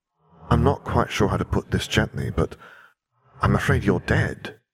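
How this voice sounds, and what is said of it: Quiet, soft character voice. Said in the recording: “in a quiet voice”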